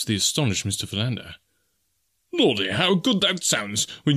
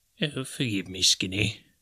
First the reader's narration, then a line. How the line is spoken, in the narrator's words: he said softly